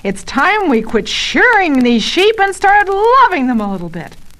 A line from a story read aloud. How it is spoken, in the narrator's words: Barton yells